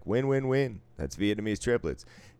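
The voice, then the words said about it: Announcer-style radio voice. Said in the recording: “I don't know why I said it in a fucking radio voice”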